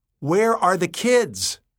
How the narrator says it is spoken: Caballo yelled

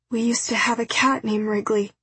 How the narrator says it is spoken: she said, her voice breaking

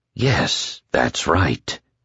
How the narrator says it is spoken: he said so softly that no one but Lloyd and Larry Underwood heard

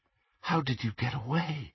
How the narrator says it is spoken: Harry asked, whispering

